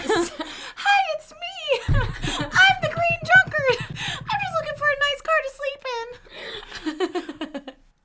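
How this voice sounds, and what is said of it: Silly put-on character voice. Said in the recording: “I don't know what voice that is, but that's my impersonation of... Bad voice.”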